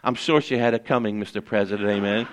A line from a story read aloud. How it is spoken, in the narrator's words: responded back softly